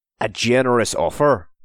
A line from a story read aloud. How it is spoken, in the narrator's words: said the O'Donnell